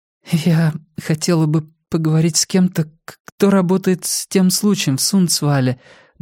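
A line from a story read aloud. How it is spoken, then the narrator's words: Trembling voice. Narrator (Russian): дрожащим голосом выговорила Флора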